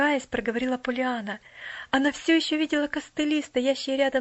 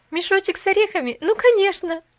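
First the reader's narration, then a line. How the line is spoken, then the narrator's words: Laughing. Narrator (Russian): засмеялась Поллианна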